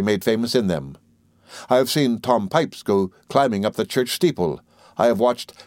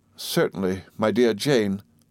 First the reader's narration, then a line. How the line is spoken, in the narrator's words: faltered my mother meekly